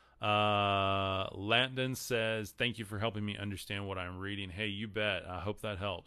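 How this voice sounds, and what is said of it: Texas accent. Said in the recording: “I'm from Texas. Sorry, my accent screws up a lot of these words.”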